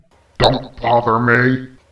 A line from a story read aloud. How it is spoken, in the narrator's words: growled Gula